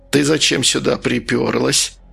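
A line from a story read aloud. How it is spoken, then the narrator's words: Quiet smiling question. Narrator (Russian): тихо спросил он, улыбаясь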